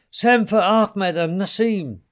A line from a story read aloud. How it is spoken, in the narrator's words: shouted the king